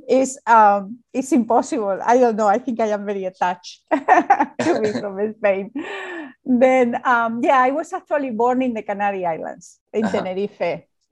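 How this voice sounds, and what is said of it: Spanish accent. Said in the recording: “I am from Spain, and it's very obvious with my accent ... Beautiful accent.”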